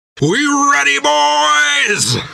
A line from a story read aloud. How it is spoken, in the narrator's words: shouted Jack with a defiant howl